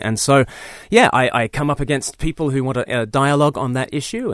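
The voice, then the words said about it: Mixed Australian and English accent. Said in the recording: “Your accent gives you away that you're not necessarily from around these here parts originally... I'm a bit half and half. I've spent half my life in the UK. I grew up in Australia, so I sound like a pom to all the Australians. I sound like a convict to the English.”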